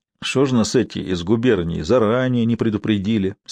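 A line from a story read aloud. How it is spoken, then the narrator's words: Gloomy. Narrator (Russian): сказал он мрачно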